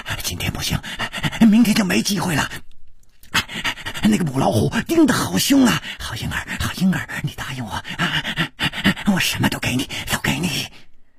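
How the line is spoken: Heavy panting. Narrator (Chinese): 他的嘴还没有说完，就好像被什么东西给堵住了，师传宗的喘息声更粗了

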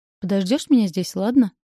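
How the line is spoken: Outwardly calm, seething inside. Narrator (Russian): Произносит вроде бы спокойно, но я вижу, что внутри у него все клокочет

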